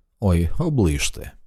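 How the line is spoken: Sighing. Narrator (Ukrainian): Едді Марс зітхнув

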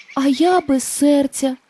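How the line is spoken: Sigh. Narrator (Ukrainian): зітхнув бляшаний лісоруб

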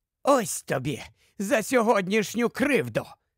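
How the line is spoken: Gloating hiss through teeth. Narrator (Ukrainian): Зловтішно просичав він крізь зуби

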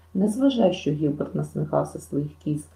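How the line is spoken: Gentle tone. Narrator (Ukrainian): лагідно сказала

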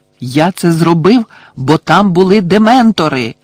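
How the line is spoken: Loud exclamation. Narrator (Ukrainian): голосно вигукнув він

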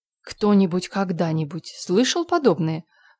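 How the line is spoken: Bewildered exclamation. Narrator (Russian): в недоумении воскликнула Марилла

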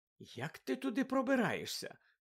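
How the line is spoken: Innocent inquiring tone. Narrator (Ukrainian): поцікавилася Герміона абсолютно безневинним тоном

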